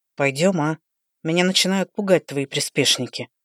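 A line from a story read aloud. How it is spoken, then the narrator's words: Sepulchral voice. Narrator (Russian): За могильным голосом начал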